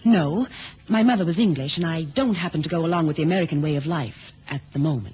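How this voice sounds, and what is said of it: American accent. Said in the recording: “He means the accent ... you don't sound like the usual courier ... Miss Delroy is an American citizen”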